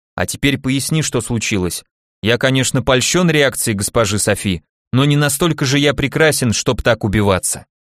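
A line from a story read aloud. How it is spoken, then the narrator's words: Calm. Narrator (Russian): я уже спокойно обратился к Сливану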